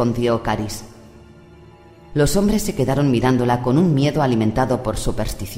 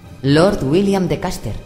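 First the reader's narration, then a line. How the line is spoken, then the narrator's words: Plain. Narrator (Spanish): dijo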